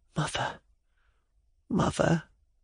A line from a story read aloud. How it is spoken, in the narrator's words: whispered